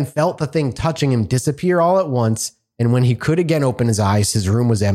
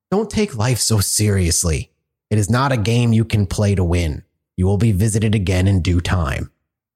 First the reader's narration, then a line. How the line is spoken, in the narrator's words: the thing spoke to him in a hoarse, low voice and said